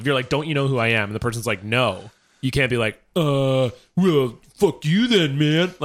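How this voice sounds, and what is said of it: Imitates another person's voice. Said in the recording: “That impression of him is a little reductive”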